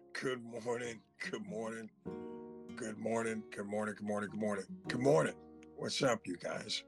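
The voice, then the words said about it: Hoarse, worn-out voice. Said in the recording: “You got to excuse my voice this morning. ... my voice is shot”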